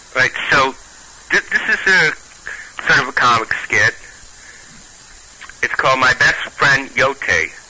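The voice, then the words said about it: Brooklyn accent. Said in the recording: “Your voice sounds... I don't remember where you're from ... Brooklyn, close ... I'm glad I still have some of my accent. I like Brooklyn accents.”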